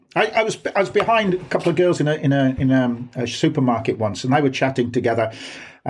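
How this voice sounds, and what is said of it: Brummie Birmingham accent. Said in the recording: “a more northern accent ... my accent is not classic Black Country ... it's pretty Brummy”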